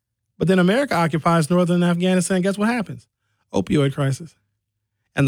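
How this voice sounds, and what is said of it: Usual voice. Nothing is said of it.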